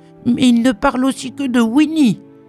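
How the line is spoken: Shrill yelp. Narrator (French): glapit-il

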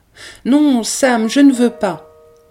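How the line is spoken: Exclaimed. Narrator (French): s'écria-t-elle

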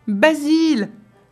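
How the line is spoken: Crying out. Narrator (French): s'écria-t-elle

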